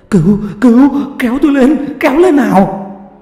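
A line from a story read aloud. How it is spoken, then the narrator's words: Terrified shouting. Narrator (Vietnamese): người công nhân này vẻ mặt sợ hãi, hét lên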